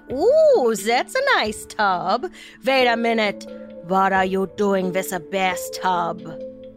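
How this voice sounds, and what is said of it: Put-on German Nazi accent. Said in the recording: “That was my Nazi accent.”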